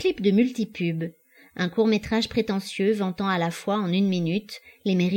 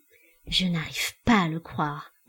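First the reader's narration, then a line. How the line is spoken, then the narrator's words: Murmured. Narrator (French): murmura Titania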